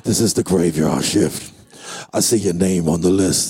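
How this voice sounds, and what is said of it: Scary horror-movie voice. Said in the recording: “I'm trying to do my most Vincent Price type of scary voice.”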